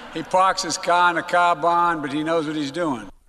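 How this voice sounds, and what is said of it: Mock Boston accent. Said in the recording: “trying to put over a Boston accent or trying to make sport of a Boston accent”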